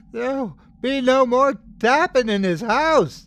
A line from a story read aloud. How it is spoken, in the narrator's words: She yelled in a terrible, trembling voice